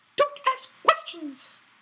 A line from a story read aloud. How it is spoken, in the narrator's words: Aunt Petunia snapped